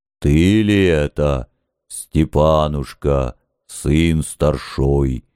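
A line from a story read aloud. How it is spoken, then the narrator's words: Dead man singing, deep bass. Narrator (Russian): Неожиданно густым классическим шаляпинским басом пропел умерший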